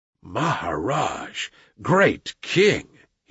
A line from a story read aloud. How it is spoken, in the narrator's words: he said at last, in a husky whisper